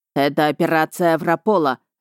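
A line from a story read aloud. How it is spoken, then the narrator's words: Barked. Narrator (Russian): рявкнул Рихард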